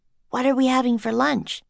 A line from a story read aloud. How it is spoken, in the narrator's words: Annie whispered to Henry